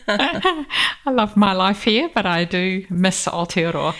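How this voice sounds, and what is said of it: New Zealand accent. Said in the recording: “born in New Zealand ... you've still got that lovely accent”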